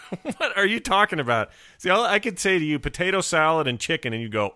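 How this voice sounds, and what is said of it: Usual voice. Nothing is said of it.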